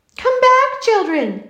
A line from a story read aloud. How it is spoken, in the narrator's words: he cried